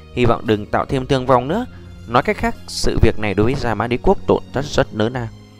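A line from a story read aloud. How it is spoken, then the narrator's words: Muttered. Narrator (Vietnamese): lẩm bẩm nói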